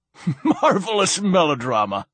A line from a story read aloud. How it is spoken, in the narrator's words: laughed Silenus